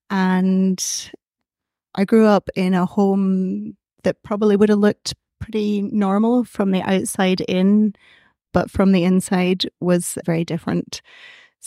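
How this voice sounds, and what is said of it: Scottish accent. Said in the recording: “you can tell I don't have an Irish accent. I'm from Scotland originally.”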